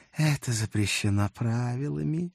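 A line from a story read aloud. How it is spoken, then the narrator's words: Regretful sigh. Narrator (Russian): с сожалением вздохнула рыжая красотка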